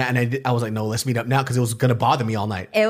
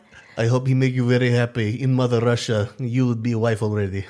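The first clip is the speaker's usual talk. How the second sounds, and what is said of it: Put-on Russian accent. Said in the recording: “He definitely didn't have that accent. ... He's not from Russia. He's just Russian American.”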